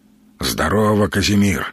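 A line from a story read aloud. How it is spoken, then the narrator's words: Hoarse mutter. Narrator (Russian): хрипно буркнул Сергей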